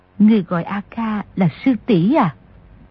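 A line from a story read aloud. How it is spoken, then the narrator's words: Shy, lowered voice. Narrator (Vietnamese): Người đẹp kia hơi đỏ mặt, hạ giọng hỏi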